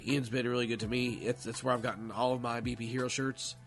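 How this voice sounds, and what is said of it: Rough, failing voice. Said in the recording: “I can tell that I'm about to lose my voice soon ... I don't sound the greatest anyway, obviously, as you can tell, but I can feel the voice starting to go.”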